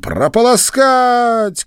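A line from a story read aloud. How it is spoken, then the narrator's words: Shouted. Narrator (Russian): крикнула она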